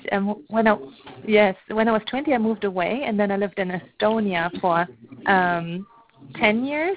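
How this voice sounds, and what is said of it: German accent. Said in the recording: “I grew up in Germany, so that's my accent is German.”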